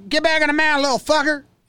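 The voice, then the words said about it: Imitates another person's voice. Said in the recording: “It's a really good impression by me.”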